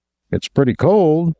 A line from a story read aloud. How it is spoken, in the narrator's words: Rudolph said stiffly